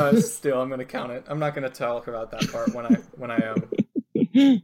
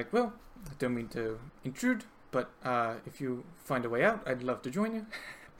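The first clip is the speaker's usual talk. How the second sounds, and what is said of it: Bad put-on New Zealand accent. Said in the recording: “It's the only voice I'm able to keep up, and it's not amazing, but it's all right... I sound like a Scotsman, apparently... Doing a bad New Zealand accent... trying to be a Kiwi”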